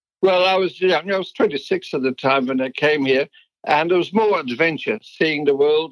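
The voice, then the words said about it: Dutch accent. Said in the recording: “you have an accent uh, and you were born in Holland”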